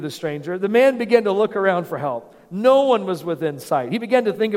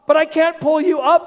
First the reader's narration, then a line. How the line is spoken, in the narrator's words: the man cried